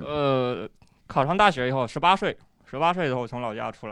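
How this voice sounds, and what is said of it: Strong Henan accent. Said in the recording (Chinese): “您这个河南口音挺重啊”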